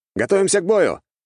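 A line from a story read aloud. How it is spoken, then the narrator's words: Loud command. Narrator (Russian): громко скомандовал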